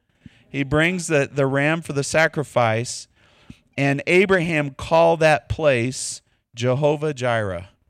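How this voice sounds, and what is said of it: Texas accent. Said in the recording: “I just butchered that with my Texas accent.”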